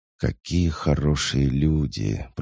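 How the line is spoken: Drawling. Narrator (Russian): протянул он

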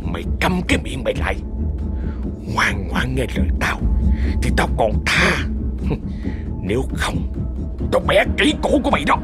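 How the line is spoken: Menacing whisper. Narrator (Vietnamese): Hắn ta thì thầm

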